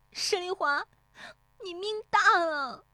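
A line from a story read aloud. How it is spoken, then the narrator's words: Tearful shout. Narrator (Chinese): 乔红梅悄然变色，带着哭腔喊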